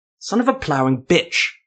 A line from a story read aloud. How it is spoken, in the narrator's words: Ethermel snarled